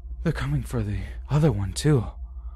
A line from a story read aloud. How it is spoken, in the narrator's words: said sadly